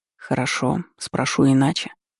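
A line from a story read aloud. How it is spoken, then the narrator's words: Quiet lord continuing. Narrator (Russian): также тихо продолжил владыка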